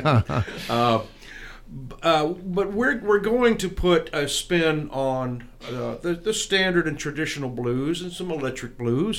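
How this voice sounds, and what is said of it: Western American accent. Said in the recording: “I think it's pretty easy to tell who's from the East and who's from the West, especially with my accent”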